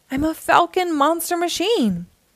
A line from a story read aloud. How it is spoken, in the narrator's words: cried